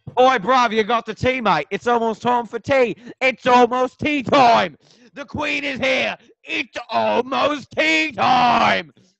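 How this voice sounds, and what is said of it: Stereotypical put-on British accent. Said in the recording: “do a UK impression ... the most stereotypical one ever”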